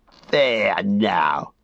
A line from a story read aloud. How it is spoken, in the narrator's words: he laughed